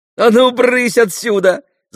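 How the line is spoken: Laughing. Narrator (Russian): засмеялась Маруся

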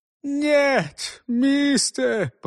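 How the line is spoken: Whimpering, fading voice. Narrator (Russian): прохныкал затихающий голос

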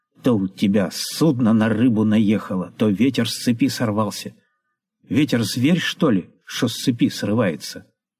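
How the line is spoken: Coughing, irritated. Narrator (Russian): Павел Иванович кашляет и отвечает раздраженно

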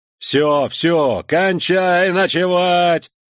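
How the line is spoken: Irritated booming command shout. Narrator (Russian): снова раздраженно прокричал старший лейтенант зычным командным голосом

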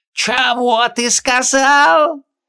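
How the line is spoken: Sudden yell, gulping. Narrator (Russian): Неожиданно завопил, хватая ртом один из пузырей

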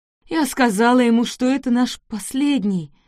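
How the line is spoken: Sobbing moan. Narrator (Russian): простонала, рыдая на его плече

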